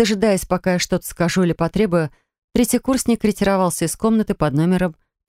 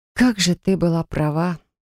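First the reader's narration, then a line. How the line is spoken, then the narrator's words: Sigh. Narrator (Russian): вздохнула я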